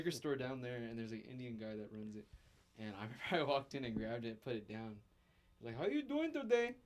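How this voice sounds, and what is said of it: Usual voice. Nothing is said of it.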